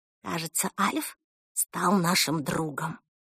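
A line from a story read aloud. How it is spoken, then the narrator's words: Whisper. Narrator (Russian): шепнула она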